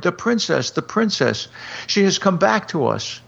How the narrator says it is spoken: a commotion arose at the other end of the hall, and people cried

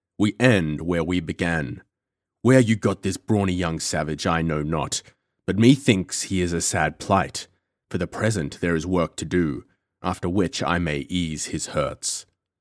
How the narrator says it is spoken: said John Gower, in his deep, menacing voice

